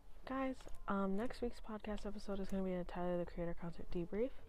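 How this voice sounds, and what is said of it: Quiet, gentle speaking voice. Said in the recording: “I don't know why I'm talking so quietly. I'm just in a gentle mood, I guess.”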